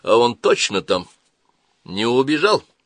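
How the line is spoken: Serious. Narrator (Russian): Эксперт хмыкнул, отозвавшись на шутку, но сказал серьезно

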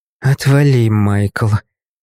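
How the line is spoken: Girl's tired reply. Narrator (Russian): устало ответила девушка

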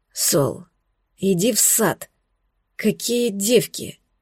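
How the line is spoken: Hoarse, exhausted voice. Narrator (Russian): голос прозвучал сипло и обессиленно

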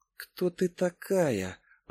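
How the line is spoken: Whisper to oneself. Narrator (Russian): прошептала я про себя

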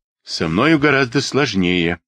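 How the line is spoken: Gloomy reply. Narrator (Russian): ответил Суинтон мрачно

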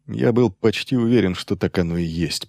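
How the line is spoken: Muttered. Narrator (Russian): пробормотал Грегор

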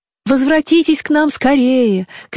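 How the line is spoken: Aunt shouting after someone. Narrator (Russian): кричала ему вслед тетушка

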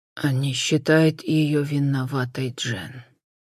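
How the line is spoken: Muffled groan into hands. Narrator (Russian): глухо простонал в ладони брат

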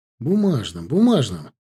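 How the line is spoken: Flustered mutter. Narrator (Russian): пробормотал я, лихорадочно подыскивая в уме альтернативу целлофану

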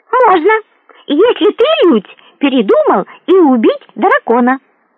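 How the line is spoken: Cheerful declaration. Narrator (Russian): весело заявил Хапуг

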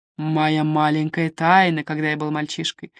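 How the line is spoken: Chuckle. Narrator (Russian): хохотнул он

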